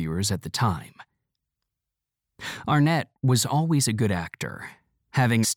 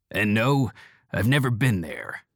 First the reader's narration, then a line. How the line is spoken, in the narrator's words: Seattle growls